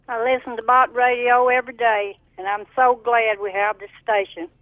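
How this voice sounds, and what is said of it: Slight southern accent. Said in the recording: “I detected a little bit of a southern accent there”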